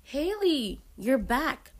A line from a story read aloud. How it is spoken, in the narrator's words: I exclaimed, startled